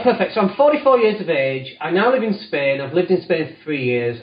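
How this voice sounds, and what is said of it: Northern English Leeds accent. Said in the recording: “I'm from Leeds originally, which if you can't tell from the accent, then that's where it's from... I've kept the accent... I sound quite northern.”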